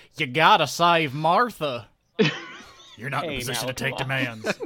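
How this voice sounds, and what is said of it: Put-on Kansas accent. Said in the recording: “I guess he's from Kansas, so like”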